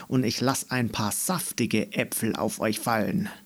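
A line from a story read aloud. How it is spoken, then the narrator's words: Growled. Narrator (German): knurrte Meckermähne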